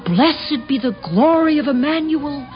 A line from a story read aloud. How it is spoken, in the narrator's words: They cried out